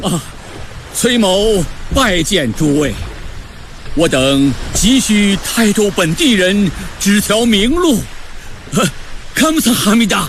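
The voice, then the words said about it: Korean accent in Mandarin. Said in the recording (Chinese): “听你这口音，大人可是来自朝鲜王国全罗道罗州”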